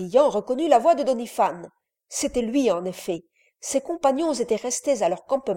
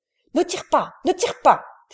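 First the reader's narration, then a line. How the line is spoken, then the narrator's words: Shout. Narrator (French): cria Brillant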